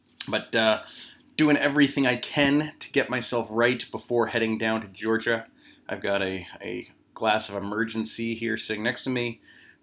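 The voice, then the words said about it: Voice a little off, sick. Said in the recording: “my voice sounds a little off or if it starts to go during the podcast. I'm sort of getting sick here.”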